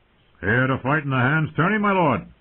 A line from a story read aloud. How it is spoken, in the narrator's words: a guardsman called out